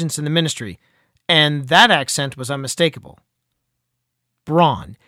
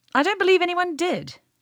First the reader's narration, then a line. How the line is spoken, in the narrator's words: Eliza snapped